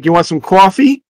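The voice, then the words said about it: Put-on thick Long Island accent. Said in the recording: “she has that really thick accent”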